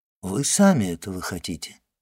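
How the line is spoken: Calm reply. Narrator (Russian): спокойно отвечал аббат

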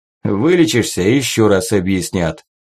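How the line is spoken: Short chuckle. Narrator (Russian): хохотнул Буслай

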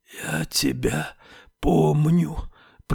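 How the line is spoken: Hoarse wheezing whisper. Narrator (Russian): произнесла она хриплым свистящим шепотом

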